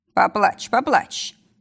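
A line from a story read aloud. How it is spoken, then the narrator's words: Deep bass, close by. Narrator (Russian): пробасил над ухом Якуб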